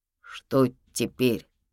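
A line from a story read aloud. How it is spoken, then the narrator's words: Trembling voice. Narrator (Russian): дрогнувшим голосом спросил Ярик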